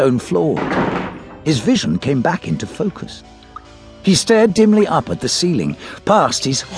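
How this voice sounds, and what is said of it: Usual voice. Nothing is said of it.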